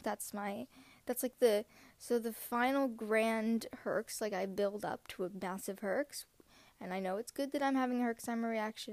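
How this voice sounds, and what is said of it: Sick, congested nasal voice. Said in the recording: “I sound sick ... only one side of my face really is snotted up”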